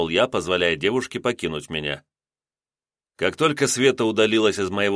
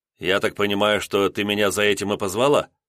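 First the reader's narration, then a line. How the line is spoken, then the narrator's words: Wry snort. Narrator (Russian): хмыкнул я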